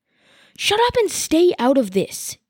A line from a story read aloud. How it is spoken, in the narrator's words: Yumi snapped at Sala so hard that the villagers flinched